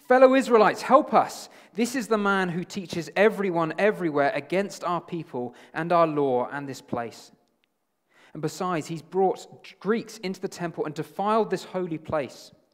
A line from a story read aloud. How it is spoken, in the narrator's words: shouting